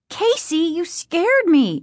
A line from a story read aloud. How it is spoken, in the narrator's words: exclaimed